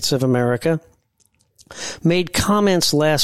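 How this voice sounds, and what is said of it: Usual voice. Nothing is said of it.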